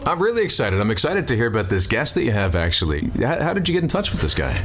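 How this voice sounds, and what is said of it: Smooth radio announcer voice. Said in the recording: “You've got that radio voice. ... I'm envious of your voice ... It's quite natural, really.”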